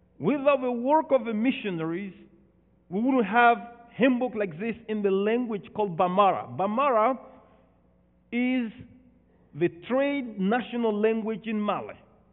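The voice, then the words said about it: Non-native accented English. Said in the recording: “please forgive me my broken English, my broken accent.”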